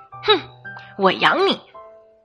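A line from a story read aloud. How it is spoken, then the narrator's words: Laughing wife. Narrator (Chinese): 我媳妇儿笑着说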